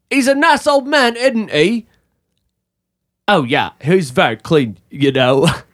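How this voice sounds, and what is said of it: Put-on British accent. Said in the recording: “What's with this accent? ... Are you just giving us a random accent? ... I'm doing British people.”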